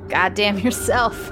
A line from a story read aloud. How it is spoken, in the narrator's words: He chuckled